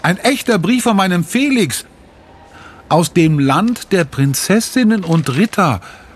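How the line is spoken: Called out. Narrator (German): ruft sie

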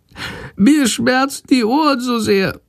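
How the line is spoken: Meek sick whimpering. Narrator (German): jammert die kranke Fledermaus ganz kleinlaut

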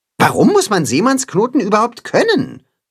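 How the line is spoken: Plain question. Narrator (German): fragt er

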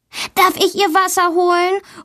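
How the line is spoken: Called out. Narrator (German): ruft Valentina

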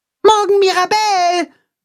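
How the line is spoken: Calling after. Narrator (German): ruft Max ihr nach

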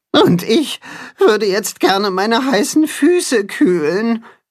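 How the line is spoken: Creature groaning. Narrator (German): stöhnt das Katzenhuhn

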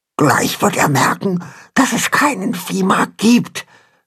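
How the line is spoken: Fearful whisper. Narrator (German): flüstert Pünktchen ängstlich ihrem Vater zu

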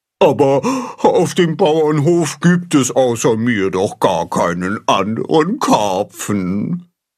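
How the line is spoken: Wailing. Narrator (German): jammert Baldrian

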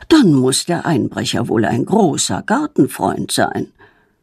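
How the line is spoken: Murmured. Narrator (German): murmelt er

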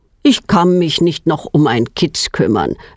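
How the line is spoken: Plain. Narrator (German): sagt er

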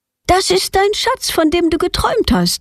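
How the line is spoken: Call. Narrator (German): ruft Petronella

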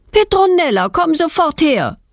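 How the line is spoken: Mother calling from window. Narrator (German): ruft ihre Mutter aus dem Wohnzimmerfenster

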